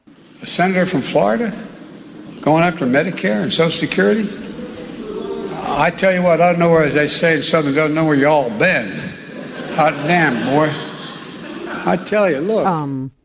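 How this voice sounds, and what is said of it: Poor put-on Southern accent. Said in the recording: “Joe Biden's Southern accent ... That was horrible.”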